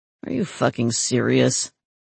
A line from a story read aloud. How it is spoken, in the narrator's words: Terry muttered to himself